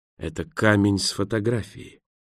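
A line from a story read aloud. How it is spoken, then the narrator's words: Whisper. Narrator (Russian): прошептал он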